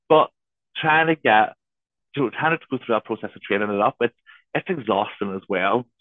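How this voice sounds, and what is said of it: Northern English accent. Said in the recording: “please listen and understand my Northern accent”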